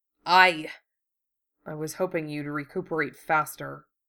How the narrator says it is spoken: Hiro muttered

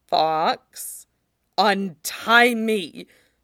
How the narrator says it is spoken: Fox snarled

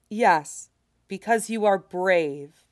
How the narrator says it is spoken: Flower says firmly

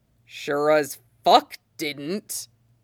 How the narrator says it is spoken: Hood growls

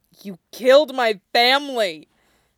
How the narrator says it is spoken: the man spat

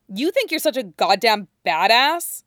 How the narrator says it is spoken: Matt sneers

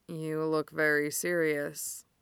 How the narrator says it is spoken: Derek mumbles

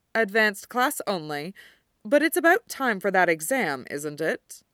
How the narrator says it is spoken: asks T

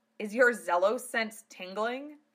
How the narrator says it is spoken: Lena chuckled

